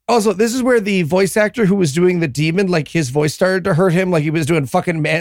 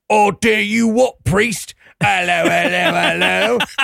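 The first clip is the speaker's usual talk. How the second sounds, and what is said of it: Comic put-on Cockney accent. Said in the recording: “So he decided to go with Cockney accent for the rest of the movie ... not one of the most comic accents of all time”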